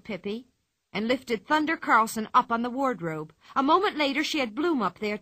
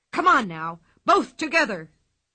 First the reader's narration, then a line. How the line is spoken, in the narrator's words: yelled Thunder Carlson